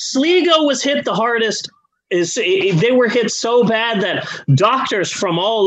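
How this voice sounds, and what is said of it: Usual voice. Nothing is said of it.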